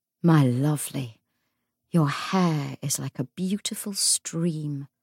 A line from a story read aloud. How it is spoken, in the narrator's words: murmured Anna